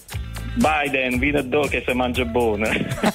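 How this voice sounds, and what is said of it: Barese Apulian dialect. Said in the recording (Italian): “Puoi dire Biden, vieni qui perché si mangia bene. Tutto in dialetto ... dicendo tutta la frase in dialetto”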